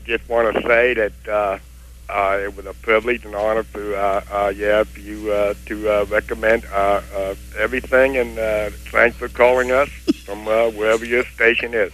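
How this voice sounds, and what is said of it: Strong Kennedy-like regional accent. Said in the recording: “Sounds like a Kennedy impersonation, too. ... the guy's from there, so he's spent his whole life perfecting that. ... Still needs a little work.”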